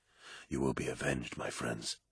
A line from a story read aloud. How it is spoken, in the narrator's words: whispered